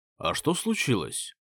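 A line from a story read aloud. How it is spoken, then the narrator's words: Plain. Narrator (Russian): спросил я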